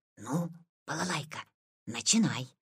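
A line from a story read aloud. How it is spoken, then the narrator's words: Quiet. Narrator (Russian): Витя сказал тихо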